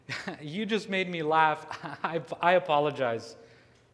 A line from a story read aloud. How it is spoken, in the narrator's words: Jasmine responds, still laughing and smirking, and says